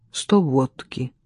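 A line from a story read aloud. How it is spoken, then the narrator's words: Quiet. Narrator (Russian): Негромко сказал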